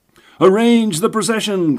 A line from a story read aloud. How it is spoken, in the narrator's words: cried the 20 committee men